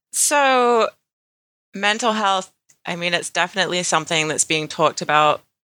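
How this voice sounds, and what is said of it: British accent. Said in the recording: “in a British accent ... she's British ... You've lived in America too long”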